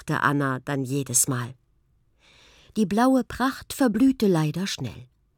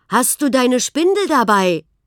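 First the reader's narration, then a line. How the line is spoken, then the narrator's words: Called from afar. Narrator (German): Schon von Weitem rief Johann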